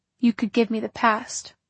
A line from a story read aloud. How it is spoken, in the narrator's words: he said a little sadly